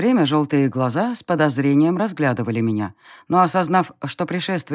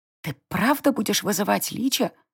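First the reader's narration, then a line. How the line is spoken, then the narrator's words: Loud whisper. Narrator (Russian): громким шепотом уточнила Сари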